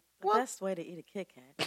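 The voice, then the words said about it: Radio announcer voice. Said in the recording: “her radio announcer voice”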